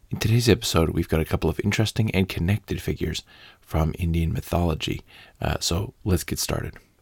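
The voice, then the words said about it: Voice strained, not in good shape. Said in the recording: “As you can hear, my voice is still not in perfect shape”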